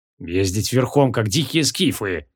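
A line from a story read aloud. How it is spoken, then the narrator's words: Displeased muttering. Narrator (Russian): недовольно пробормотал он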